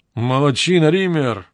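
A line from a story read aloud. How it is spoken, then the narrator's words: Exclaiming. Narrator (Russian): воскликнул Зейлер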